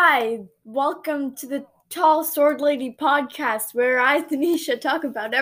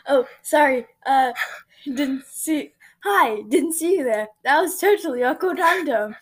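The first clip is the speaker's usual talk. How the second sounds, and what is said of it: Poor put-on British accent. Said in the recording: “Your British accent is horrible.”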